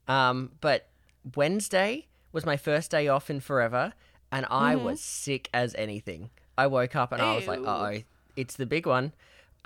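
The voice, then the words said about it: Slightly raspy voice. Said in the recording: “You can still kind of hear it in my voice. I'm a little bit raspy.”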